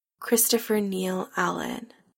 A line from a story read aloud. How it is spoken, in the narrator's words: Adam murmurs, voice shaky and uncertain